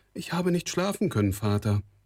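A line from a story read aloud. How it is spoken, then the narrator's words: Calling back. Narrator (German): rief sie zurück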